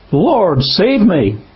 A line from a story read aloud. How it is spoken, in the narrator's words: beginning to sink, he cried out, saying